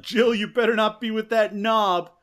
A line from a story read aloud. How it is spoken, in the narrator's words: Marty he does yell out